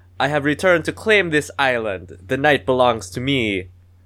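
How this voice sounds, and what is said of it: Weak Transylvanian-tinged villain accent. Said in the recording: “I'm gonna attempt the accent, not do a very good job. ... It's not very good. ... I think we both went Transylvanian at the end there.”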